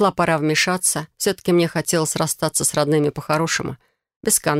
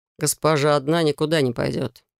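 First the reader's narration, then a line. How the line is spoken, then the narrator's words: Dry curt remark. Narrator (Russian): сухо обронил Алекс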